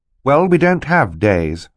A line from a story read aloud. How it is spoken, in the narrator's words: Violet said firmly